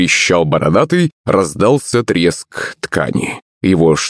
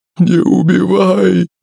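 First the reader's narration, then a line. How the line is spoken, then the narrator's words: Sobbing in fear. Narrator (Russian): зарыдал он, испуганно таращась на Мухтара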